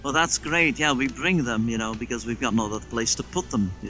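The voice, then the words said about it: Put-on accent. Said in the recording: “I love saying Craig with that accent”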